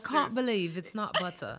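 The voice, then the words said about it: Put-on British accent. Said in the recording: “Her British accent.”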